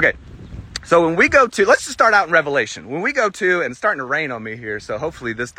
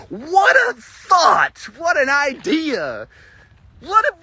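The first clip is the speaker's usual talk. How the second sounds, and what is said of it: Sarcastic exclamations. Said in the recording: “stop being sarcastic”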